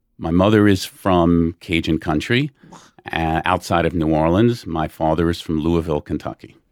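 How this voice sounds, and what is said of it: New Orleans accent, Brooklyn-like. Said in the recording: “I believe that I do have a New Orleans accent. I don't have a Southern accent... a real New Orleans accent is much closer to a Brooklyn accent”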